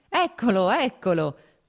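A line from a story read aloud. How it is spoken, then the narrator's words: Laughing. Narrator (Italian): disse ridendo Serpuchovskoj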